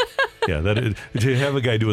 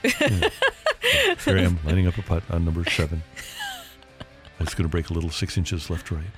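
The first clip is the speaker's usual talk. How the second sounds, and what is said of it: Hushed golf commentator voice. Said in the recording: “doing the golf voice”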